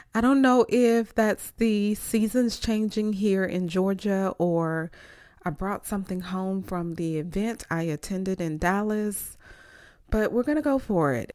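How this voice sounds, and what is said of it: Stuffy, congested voice from cold. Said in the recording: “I have a bit of a cold and I'm a little stuffy.”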